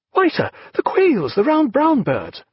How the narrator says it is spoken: cried Mr

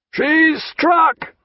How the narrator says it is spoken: came a bellowing mooncalf roar from the bows

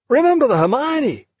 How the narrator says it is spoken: cried Lewis

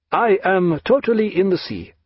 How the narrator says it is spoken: said Jagiello, cheerfully

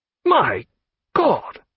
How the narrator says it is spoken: he cried after a moment

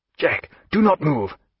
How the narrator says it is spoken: cried Stephen

